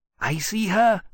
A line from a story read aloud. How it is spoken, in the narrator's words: Temeraire said eagerly